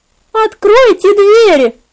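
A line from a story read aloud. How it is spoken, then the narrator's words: Shrieking woman. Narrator (Russian): визжала она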